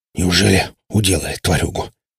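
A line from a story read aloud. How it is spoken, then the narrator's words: Hoarse wheeze, bruised throat. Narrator (Russian): прохрипел мех, растирая помятый кадык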